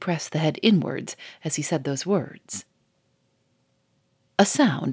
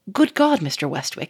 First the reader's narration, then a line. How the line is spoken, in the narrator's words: he exclaimed